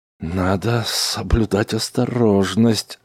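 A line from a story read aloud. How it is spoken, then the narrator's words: Confused mutter. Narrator (Russian): растерянно пробормотал Смит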